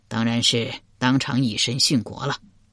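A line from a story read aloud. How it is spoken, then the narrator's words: Sighing. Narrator (Chinese): 钟会叹了口气道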